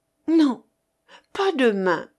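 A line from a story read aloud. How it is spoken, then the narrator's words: Pleading voice. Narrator (French): répondit-elle d'une voix suppliante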